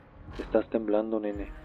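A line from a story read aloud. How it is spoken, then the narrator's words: Laughing. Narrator (Spanish): dijo riendo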